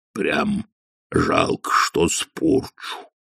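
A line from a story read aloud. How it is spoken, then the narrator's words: Sighing. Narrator (Russian): вздохнул тролль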